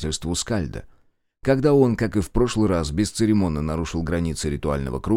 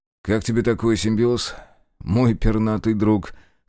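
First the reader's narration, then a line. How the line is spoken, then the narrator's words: Wry snort. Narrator (Russian): хмыкнул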